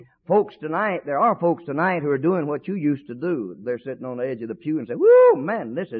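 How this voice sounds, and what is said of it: Usual voice. Nothing is said of it.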